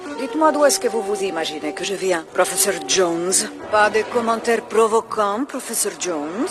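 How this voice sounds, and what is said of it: Russian accent in French. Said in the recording (French): “l'accent russe, la star de ce film... l'accent qui est omniprésent.”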